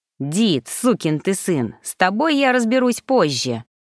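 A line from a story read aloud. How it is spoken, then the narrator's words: Growl. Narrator (Russian): рыкнул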